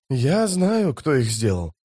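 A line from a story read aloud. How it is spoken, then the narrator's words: Quiet. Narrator (Russian): тихо сказал он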